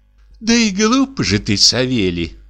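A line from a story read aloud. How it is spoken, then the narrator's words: Pitying sigh. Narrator (Russian): вздохнула дичиха с жалостью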